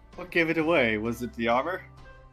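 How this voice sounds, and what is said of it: Sarcastic delivery. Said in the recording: “being sarcastic”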